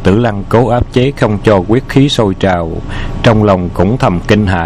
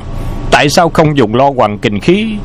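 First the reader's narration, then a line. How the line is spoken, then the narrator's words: Stern loud shout. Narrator (Vietnamese): Hầu Hy Bạch lộ thần sắc nghiêm nghị hét lớn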